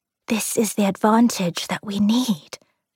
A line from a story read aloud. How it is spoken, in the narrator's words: Joan whispered back